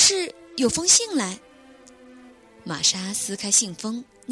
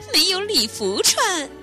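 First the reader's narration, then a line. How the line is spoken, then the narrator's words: Smiling man. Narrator (Chinese): 男子笑着说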